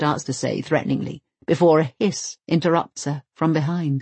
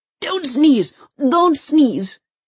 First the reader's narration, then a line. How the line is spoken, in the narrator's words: he implores anxiously